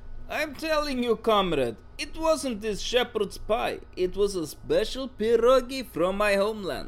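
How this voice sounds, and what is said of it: Funny foreign accent. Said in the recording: “I know the Scots have funny accents, but not quite as funny as yours.”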